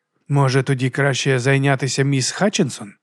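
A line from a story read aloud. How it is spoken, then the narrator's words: Quiet suggestion. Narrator (Ukrainian): тихо запропонував Леб'є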